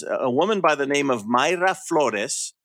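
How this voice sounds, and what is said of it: Spanish pronunciation of names. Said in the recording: “You are really good with the real Spanish accent when you do the... when you say the names.”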